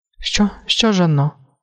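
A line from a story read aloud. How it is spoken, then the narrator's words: Woman asking, frightened. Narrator (Ukrainian): злякано спитала жінка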